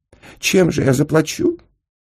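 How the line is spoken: Small tearful voice. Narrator (Russian): плачущим голоском сказал Сенька

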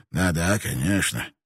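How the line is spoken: Grumble. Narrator (Russian): проворчал тот

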